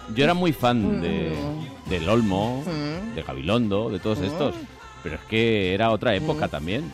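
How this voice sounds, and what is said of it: Polished old-school radio announcer voice. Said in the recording (Spanish): “Esa voz tan radiofónica que tiene ... Tiene voz de locutor de antes... Que tenían unas voces fantásticas.”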